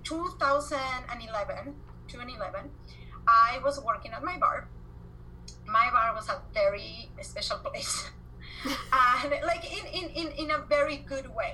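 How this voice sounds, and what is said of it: Argentine Spanish accent. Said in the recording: “obviously I have an accent, I'm from Argentina”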